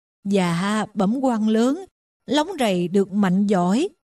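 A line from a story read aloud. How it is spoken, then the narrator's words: Stammering. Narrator (Vietnamese): Miệng ông lắp bắp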